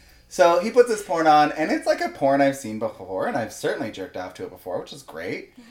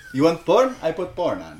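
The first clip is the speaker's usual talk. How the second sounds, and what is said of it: Put-on foreign accent. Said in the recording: “Everything I'm going to hear in that accent.”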